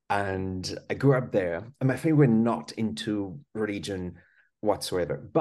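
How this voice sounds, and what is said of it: French accent. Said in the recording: “I was born in France. That's why I've got this funny accent.”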